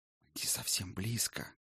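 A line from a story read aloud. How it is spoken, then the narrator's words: Whisper over shoulder. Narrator (Russian): прошептал из-за ее плеча Кор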